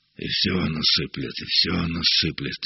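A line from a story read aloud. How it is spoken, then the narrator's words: Muttering. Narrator (Russian): бормотал Семен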